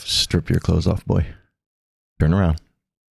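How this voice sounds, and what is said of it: Low, soft sultry voice. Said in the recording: “I usually lower my voice a little bit, and I talk really soft when I do sexy talk”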